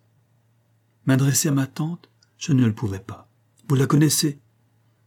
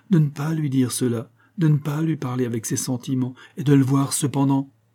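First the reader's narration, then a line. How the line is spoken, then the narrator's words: Pleading voice. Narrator (French): reprit Evelyne avec une supplication dans la voix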